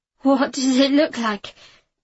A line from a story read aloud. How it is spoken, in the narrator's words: I said shakily